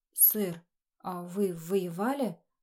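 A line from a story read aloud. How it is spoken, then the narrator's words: Stammering. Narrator (Russian): Заикаясь, обратился к Кайцу Берт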